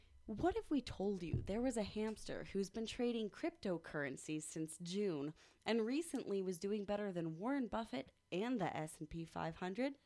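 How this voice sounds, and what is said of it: News-reader voice. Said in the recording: “I have to read it in my news reading voice”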